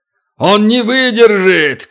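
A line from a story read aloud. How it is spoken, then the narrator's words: Giant shouting. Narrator (Russian): крикнул великан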